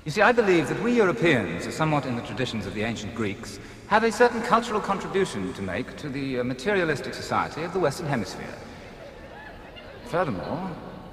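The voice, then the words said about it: Snobbish posh European accent. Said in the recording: “And you haven't lost your accent? ... My accent. ... you're a snob ... You are a toffee-nosed toff.”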